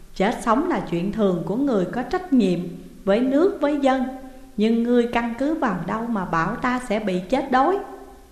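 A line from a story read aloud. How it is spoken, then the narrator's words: Smiling question. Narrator (Vietnamese): Đặng Thông mỉm cười hỏi lại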